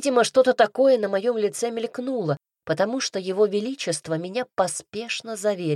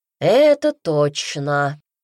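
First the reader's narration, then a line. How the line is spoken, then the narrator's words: Sigh. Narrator (Russian): вздохнул Редрик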